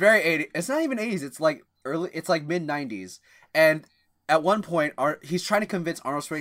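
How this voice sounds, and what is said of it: Usual voice. Nothing is said of it.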